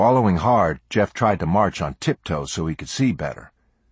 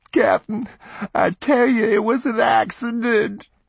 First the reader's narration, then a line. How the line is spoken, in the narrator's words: the boy kept pleading and sobbing